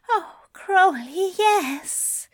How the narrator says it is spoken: Aziraphale sighed

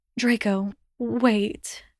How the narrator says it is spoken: Hermione murmured

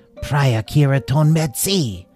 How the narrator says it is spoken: she cried

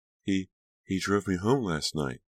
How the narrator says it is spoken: Delia replied shakily

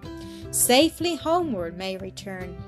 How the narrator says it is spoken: she exclaimed

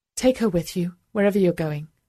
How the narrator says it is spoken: she said

